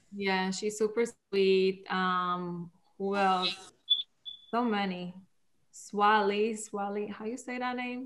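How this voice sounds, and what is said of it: Foreign accent. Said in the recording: “my accent doesn't help either”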